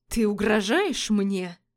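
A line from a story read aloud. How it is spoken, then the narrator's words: Furious growl. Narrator (Russian): прорычал судья, яростно сверкая глазами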